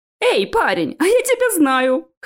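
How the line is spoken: Chuckling. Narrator (Russian): хохотнул парень

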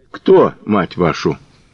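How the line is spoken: Indifferent question. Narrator (Russian): Безразличным тоном спросил

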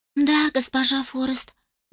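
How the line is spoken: Sighing. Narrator (Russian): вздохнула Мелоди

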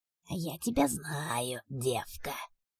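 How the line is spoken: Demon hissing. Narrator (Russian): прошипел демон

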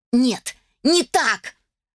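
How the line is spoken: Mother shouting. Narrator (Russian): закричала родительница

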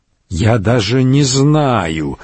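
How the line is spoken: Strained, forced-out words. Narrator (Russian): выдавил он

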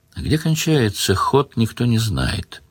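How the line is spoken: Quiet giant monk. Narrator (Russian): тихо сказал великан-монах

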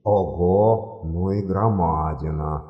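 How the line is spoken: Whisper. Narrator (Russian): прошептал арканцлер

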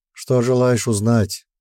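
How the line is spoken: Weary. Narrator (Russian): устало ответил эльф

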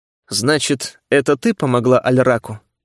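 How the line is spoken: Calm question. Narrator (Russian): спокойно спросил я, готовясь к схватке

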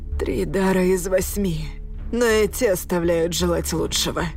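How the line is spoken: Hoarse rasp. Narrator (Russian): прохрипел он

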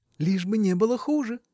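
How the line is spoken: Cheerful reply. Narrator (Russian): весело отвечала она

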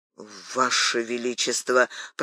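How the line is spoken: Astonished mutter. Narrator (Russian): пробормотал Д'Артаньян в изумлении

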